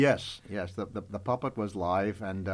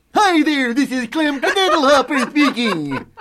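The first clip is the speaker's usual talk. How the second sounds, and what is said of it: Comic character voice. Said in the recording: “I will now do my imitation of Klemke Diddlehopper”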